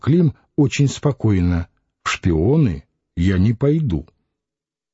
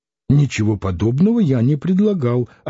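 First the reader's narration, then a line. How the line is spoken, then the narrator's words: Offended exclamation. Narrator (Russian): обиженно воскликнул офицер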